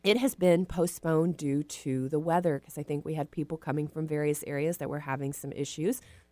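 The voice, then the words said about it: Rough, poor-sounding voice. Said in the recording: “sorry, my voice sounds terrible.”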